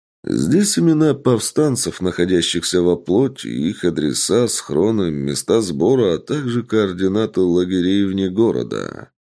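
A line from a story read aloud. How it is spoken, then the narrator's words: Plain. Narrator (Russian): ответил человек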